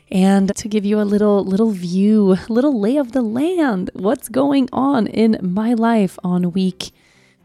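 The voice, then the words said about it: Hoarse, breaking, weak voice. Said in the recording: “I barely have a voice. It's a little better today. Yesterday I could barely talk at all. So my voice, I feel like I'm in puberty or something. My voice just kind of goes and then it comes back.”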